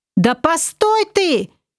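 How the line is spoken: Shouted after someone. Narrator (Russian): крикнул вдогонку Олег

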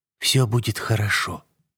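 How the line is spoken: Whisper. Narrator (Russian): прошептала она

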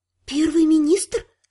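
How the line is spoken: Whisper. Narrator (Russian): прошептала я

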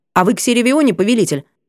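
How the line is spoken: Hasty blurt. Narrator (Russian): выпалила торопливо

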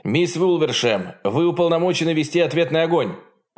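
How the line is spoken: Officer shouting formal order. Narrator (Russian): Офицер связи Белерафонта выкрикнул приказ строго в соответствии с уставом

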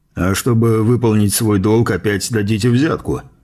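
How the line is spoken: Snorting remark. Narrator (Russian): хмыкнул Эссен

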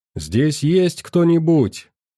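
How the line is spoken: Shouted into emptiness. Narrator (Russian): Крикнул я в пустоту

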